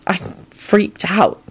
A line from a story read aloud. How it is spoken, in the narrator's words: she whispered